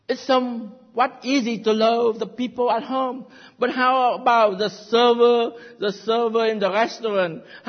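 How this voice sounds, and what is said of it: Heavy non-native English accent. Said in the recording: “Who have some heavy accent, just like me.”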